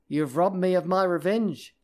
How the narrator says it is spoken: she cried

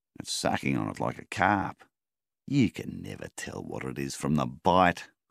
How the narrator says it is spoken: scoffed Melvin

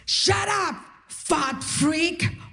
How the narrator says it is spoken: The guy yells at me

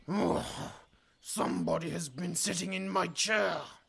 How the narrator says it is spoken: he bellowed in his big, growly voice

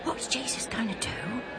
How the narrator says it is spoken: Alf whispered to Joe

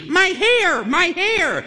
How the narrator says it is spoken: A woman is shrieking

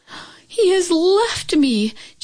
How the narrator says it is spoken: Chin Yu Min cried out

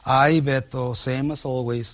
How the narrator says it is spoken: Leticia sighs

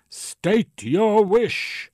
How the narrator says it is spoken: the genie roared in a booming baritone

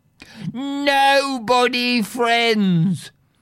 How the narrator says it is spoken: Polyphemus bellowed back from his cave

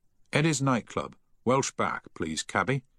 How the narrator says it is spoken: he said firmly

